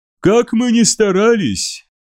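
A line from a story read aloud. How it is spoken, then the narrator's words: Sad voices. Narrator (Russian): их голоса зазвучали печально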